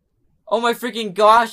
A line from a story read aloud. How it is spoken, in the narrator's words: I cried